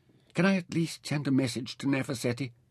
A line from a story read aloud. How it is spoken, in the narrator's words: Mintaka pleaded